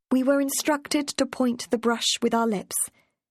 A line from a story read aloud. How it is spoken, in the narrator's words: she said